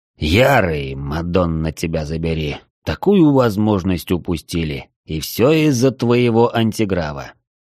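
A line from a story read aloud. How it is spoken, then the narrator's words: Displeased grumble. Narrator (Russian): недовольно проворчал катарианец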